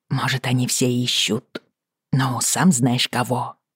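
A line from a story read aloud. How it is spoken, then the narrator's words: Mutter. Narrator (Russian): пробормотала я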